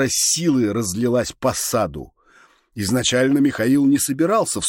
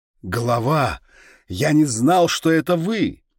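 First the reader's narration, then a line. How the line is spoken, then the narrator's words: Repentant wail. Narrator (Russian): покаянно взвыл тот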